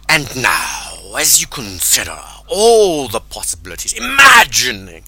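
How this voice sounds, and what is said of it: Weird, dramatic hypnotic tone. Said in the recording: “People shift modes when they're about to get hypnotic ... how my voice is just going weird ... your voice becoming more dramatic ... a more dramatic voice”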